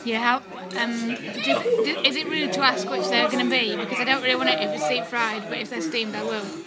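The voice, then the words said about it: Northern English accent. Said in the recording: “your Wakefield accent ... Leeds, actually ... You've not got a Leeds accent ... It's a northern twang”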